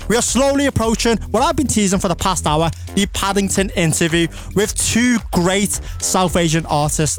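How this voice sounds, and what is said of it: Scouse accent. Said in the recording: “The Scouse accent is top tier ... you're all accustomed to the accent”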